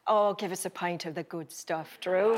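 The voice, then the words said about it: Put-on Irish accent. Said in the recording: “an Irish accent”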